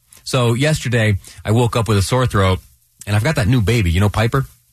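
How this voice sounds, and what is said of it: Congested, stuffy voice. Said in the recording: “hear that in my voice. I'm a little congested today.”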